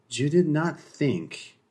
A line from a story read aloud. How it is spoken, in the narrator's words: Revulae continued purringly